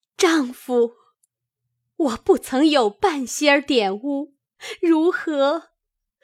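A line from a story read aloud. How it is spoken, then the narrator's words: Weeping woman. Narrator (Chinese): 那妇人听罢，哭将起来，说道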